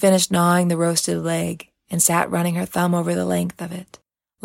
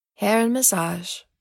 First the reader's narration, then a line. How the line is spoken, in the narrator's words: Nanaline said sadly